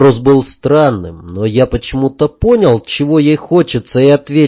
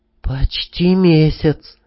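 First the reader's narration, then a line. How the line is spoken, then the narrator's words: Sighed. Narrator (Russian): вздохнула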